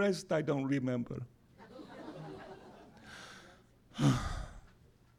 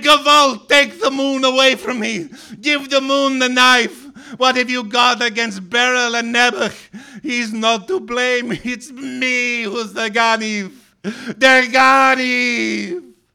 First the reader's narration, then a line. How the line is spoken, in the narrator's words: cried